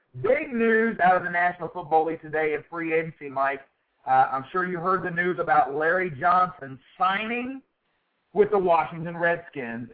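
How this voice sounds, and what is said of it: Hoarse, strained voice. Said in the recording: “My voice is still killing me, man. ... my first day back on the air since the laryngitis”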